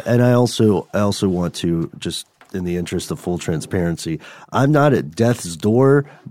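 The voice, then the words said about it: Deep, gravelly, congested sick voice. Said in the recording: “my voice sounds a little bad ... mucusy noises ... It's just extra deep ... nice and gravelly”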